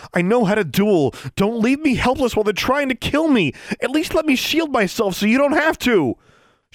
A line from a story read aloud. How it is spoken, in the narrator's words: Alexandra pleaded with Tsotsi